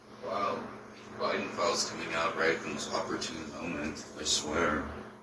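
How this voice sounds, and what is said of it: Sick, congested voice. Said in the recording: “you know I'm still sick. I'm sure you can hear it in my voice”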